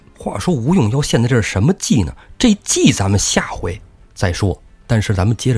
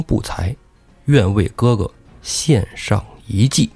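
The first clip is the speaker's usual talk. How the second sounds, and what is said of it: Quiet, hushed voice. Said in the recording (Chinese): “小声”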